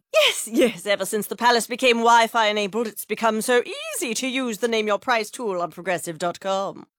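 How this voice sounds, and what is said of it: Impression of a royal's voice. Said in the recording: “my impression of a tech-savvy royal family”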